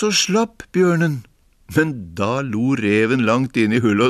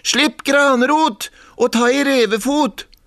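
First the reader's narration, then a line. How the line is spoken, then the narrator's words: Scream. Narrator (Norwegian): Han skrek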